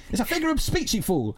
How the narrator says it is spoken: Harold snapped, losing his temper

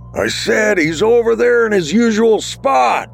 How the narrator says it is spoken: Bruce yelled, trying to overpower the music and crowd

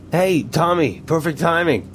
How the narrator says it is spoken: Greg said cheerfully

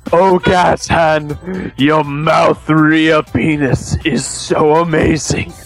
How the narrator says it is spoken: moaned Rocket in earthly and heavenly delights

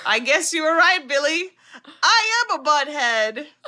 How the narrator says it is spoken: Jim laughs and says

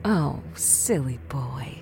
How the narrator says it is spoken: cooed Kathleen

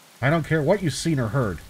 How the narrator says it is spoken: Captain Blythe was saying, his voice tight with stress

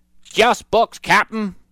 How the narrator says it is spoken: shouted Stinky

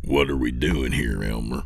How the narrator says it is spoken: Lewis said in a low voice

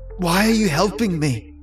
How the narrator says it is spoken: Lucas managed to ask, his voice shaking

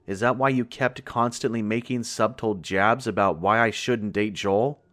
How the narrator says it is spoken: Larissa snarled, her voice full of barely contained fury

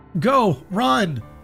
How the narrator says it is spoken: I shouted to Dana

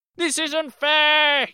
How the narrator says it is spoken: he screamed at the plants

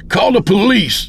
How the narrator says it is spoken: I shouted to her as she ran out

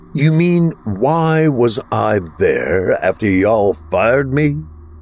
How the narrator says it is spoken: William laughed

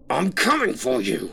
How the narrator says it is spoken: the man screamed

